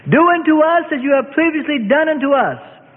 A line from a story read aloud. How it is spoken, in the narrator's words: the Sadducees shouted